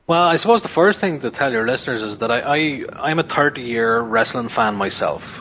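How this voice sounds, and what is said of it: Irish accent. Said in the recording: “My accent might give it away. I'm from Ireland”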